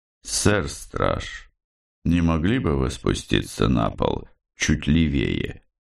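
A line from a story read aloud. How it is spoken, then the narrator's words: Calm confident voice from darkness. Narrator (Russian): из мрака спокойным и уверенным голосом произнесли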